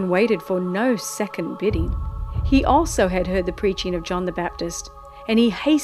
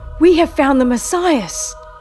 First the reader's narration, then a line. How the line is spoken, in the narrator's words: he cried